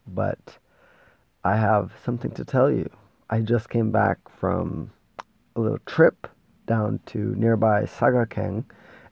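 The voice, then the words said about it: Gravelly, sick-sounding voice. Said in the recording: “my voice is a little bit gravelly, I'm a little bit sick”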